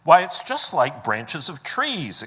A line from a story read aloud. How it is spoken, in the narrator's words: exclaimed Lucy